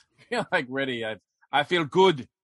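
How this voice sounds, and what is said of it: Mediocre put-on Russian accent. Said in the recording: “My Russian accent is only slightly better than David's ... Slightly”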